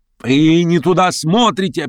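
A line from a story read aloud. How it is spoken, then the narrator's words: Shouting again. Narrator (Russian): опять закричал он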